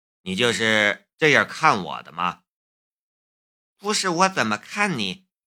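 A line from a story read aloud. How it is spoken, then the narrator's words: Growing angrier. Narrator (Chinese): 江如意越说越生气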